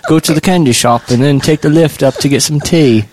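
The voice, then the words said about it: Mock British accent. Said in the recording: “a British accent ... I assumed it was just all one large dialect, the way they all talk, kind of talk like this”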